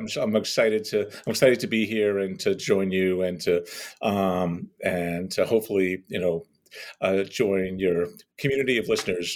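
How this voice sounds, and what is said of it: Scratchy voice. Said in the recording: “my voice is scratchy”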